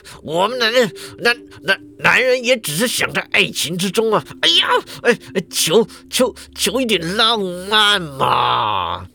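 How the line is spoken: Steeling himself, hesitant. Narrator (Chinese): 庄记者咬咬牙就就说了

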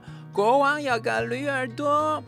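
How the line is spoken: Reeds shouting. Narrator (Chinese): 芦苇大喊说

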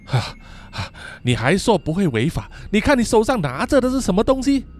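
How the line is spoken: Panting. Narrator (Chinese): 热象一面喘气，说

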